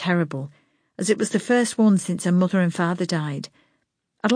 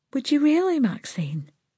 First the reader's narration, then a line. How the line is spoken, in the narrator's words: she said in a soft voice